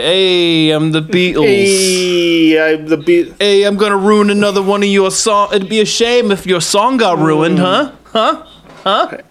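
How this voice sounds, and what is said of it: Put-on Brooklyn accent. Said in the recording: “What accent is this? ... I don't know. Brooklyn, I guess.”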